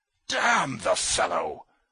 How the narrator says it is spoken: roared Trudolyubov

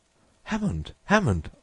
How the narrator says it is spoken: I cried

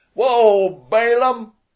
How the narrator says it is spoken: He shouted

